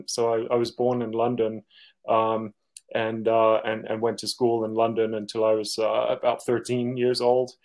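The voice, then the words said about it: Mixed US and UK accent. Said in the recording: “My accent is a hybrid of a US and a UK accent.”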